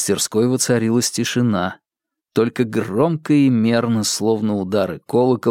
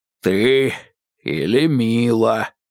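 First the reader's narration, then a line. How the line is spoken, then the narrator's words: Deep bass voice. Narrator (Russian): пробасил Скрынка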